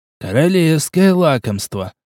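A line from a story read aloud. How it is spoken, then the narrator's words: Ecstatic whisper. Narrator (Russian): восторженно прошептал чародей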